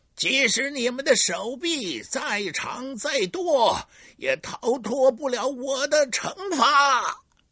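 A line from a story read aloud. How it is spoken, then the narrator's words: Loud shout. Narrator (Chinese): 堂吉诃德大声喊道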